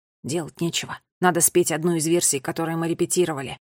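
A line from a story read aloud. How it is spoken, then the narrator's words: Whisper. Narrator (Russian): шепнул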